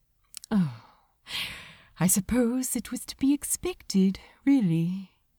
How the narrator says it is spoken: said softly

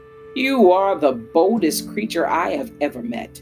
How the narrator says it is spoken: he roared

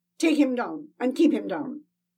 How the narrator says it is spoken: Hengst snapped

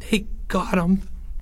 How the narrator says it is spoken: Porge gasped for breath

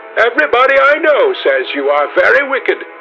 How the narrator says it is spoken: cried the old lady

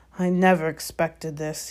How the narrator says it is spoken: he said in a low, worried voice

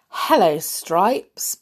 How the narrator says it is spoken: Baloo greeted him cheerfully

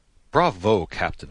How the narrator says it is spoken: I exclaimed

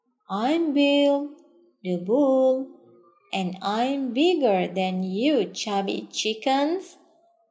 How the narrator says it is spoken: he said in a deep voice

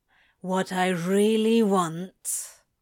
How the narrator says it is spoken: Crowley rasps

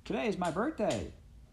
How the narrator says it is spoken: Midge called out

